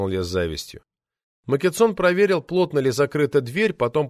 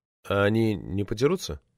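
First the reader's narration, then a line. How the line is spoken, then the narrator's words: Quiet question. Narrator (Russian): тихо спросил я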